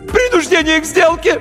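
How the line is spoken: High-pitched yell, voice cracking. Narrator (Russian): неожиданно высоким юношеским голосом завопил нотариус и дал петуха

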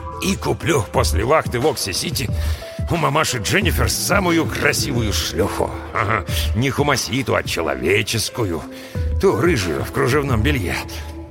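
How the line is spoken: Muttered. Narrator (Russian): пробормотал Брэм

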